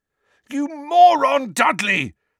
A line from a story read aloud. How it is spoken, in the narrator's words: Harry yelled, his eyes watering with pain